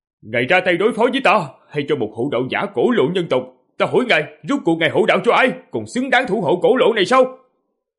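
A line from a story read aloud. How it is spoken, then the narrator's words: Loud shout. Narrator (Vietnamese): Diệp Phàm hét lớn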